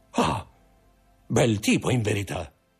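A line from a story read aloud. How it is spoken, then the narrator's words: Murmured. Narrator (Italian): mormorò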